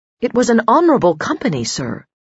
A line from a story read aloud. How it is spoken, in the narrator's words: she said firmly